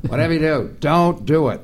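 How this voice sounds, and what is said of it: Imitates another person's voice, poorly. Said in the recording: “That was not a very good Norm impression ... It sounded more like Lovitz.”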